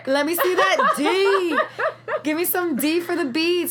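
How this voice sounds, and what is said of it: Yelling loudly. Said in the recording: “I'm yelling it ... I'm like yelling”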